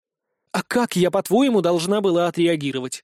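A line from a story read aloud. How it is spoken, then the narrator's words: Indignant exclamation. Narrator (Russian): возмущенно воскликнула Иса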